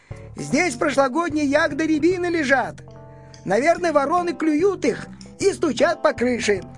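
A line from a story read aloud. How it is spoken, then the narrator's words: Children shouting. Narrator (Russian): закричали ребята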